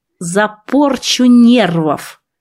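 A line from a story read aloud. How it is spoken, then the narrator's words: Growling snap. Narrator (Russian): рыкнула я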